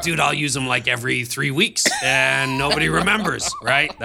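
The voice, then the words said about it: Gravelly smoker's voice impression. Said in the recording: “That's a great impersonation... Smoking a pack of cigarettes a day. That's what it sounds like... He sounds like he drinks a lot of beer and a lot of cigarettes.”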